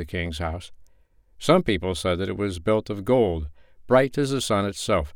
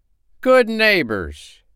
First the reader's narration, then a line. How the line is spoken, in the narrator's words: he cried